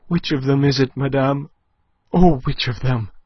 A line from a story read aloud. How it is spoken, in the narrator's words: gasped Aline, scarce daring to look, her senses swimming